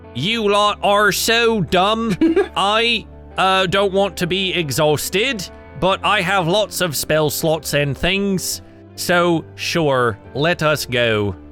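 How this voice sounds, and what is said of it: Muddled put-on British accent. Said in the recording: “What is that accent? ... That's his Russian accent. ... that is a British person trying to do an American person doing a British accent. ... This is Canadian accent.”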